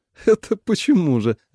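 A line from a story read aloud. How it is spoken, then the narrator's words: Surprised laugh. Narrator (Russian): рассмеялась мать от неожиданности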